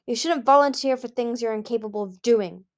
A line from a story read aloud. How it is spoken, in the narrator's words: Gil said harshly